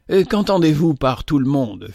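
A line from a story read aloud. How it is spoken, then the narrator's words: Curt. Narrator (French): fit-elle d'un ton bref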